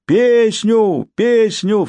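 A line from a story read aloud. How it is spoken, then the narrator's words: Shrill chorus. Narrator (Russian): вступил визгливый хор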